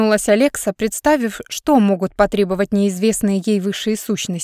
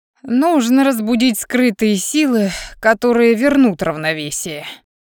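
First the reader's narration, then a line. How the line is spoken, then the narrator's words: Explaining after laughter. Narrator (Russian): отсмеявшись, пояснил дракон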